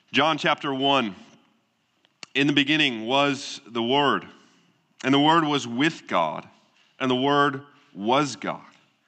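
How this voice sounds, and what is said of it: Weak voice with a cold, sniffling. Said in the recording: “I'm recovering from a cold this week, so we are praying my voice holds up ... a little sniffling or my voice is a little weaker than normal”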